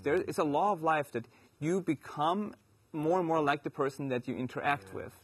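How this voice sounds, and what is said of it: German accent. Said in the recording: “you hear my accent and then you start talking kind of German”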